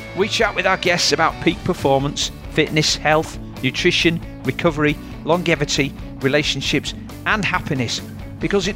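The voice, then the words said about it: Yorkshire English accent. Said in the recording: “you will always hear a Yorkshire accent”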